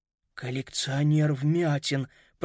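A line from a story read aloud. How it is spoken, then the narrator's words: Whisper. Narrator (Russian): прошептал Питер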